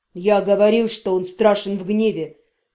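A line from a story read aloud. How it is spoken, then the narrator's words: Muttered. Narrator (Russian): пробормотал Афар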